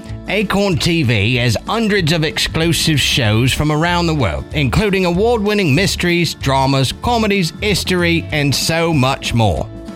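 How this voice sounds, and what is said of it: Put-on British accent. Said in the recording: “work on my accent when I watch it... I'll end up talking like this... It sounds like he's auditioning for a Christmas Carol”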